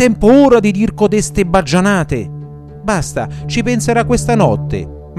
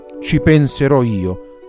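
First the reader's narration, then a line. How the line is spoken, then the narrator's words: Grumbling reply. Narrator (Italian): rispose brontolando Don Abbondio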